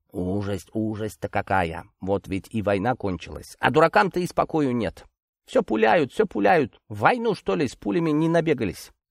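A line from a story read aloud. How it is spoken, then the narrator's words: Muttering. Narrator (Russian): Бормоча так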